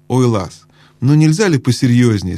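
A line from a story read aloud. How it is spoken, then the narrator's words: Plain. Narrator (Russian): сказала Аравис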